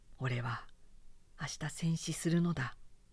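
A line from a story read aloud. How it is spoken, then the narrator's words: Muttering. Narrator (Japanese): 大尉はつぶやきながら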